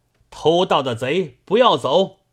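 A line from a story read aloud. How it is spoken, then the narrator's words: Crowd shouting from afar. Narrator (Chinese): 众人远远地望着田中，便喊道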